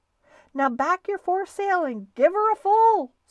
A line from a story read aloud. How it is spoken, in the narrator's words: screamed the owner of the Wasp